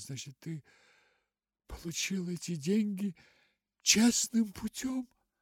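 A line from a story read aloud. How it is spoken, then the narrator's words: Uncertain question. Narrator (Russian): Гертруда вытерла глаза и, наконец, неуверенно спросила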